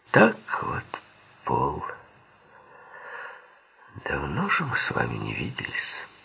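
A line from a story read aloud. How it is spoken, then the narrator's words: Calm voice. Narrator (Russian): проговорил он спокойным голосом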